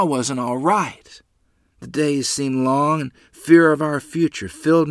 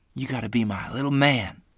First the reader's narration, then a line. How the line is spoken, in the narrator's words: whisper